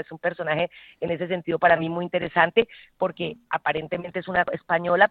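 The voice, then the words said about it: Colombian Spanish accent. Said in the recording (Spanish): “te escuchamos a ti, siempre con ese acento colombiano que tanto yo creo que nos gusta y sí, que te caracteriza”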